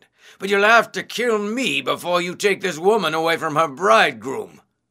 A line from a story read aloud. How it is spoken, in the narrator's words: he shouted